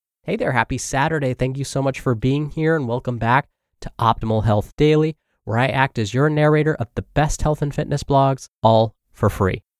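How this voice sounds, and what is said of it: Slightly congested, nasal voice. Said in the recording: “I still sound a little congested today, but I think I'm finally over most of this little allergy flare-up ... my voice sounds this way”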